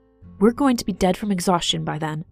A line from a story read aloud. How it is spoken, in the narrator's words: Fauna snapped